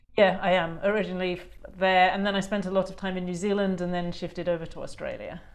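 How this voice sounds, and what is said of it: English accent. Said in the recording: “you're from England originally, from your accent”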